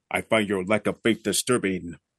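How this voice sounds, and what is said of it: Darth Vader impression, deep voice. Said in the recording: “voice impersonation ... James Earl Jones retired as Darth Vader”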